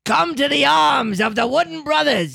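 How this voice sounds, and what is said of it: Popeye-like cartoon sailor voice. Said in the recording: “That was more Popeye at the end... Accidental Popeye”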